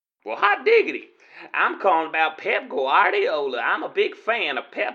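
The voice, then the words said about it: Put-on unusual folksy accent. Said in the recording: “Well, that's an interesting accent you've got there. ... must be an area I've not been to with that accent.”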